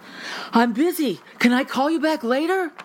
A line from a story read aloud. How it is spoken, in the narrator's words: telling him breathlessly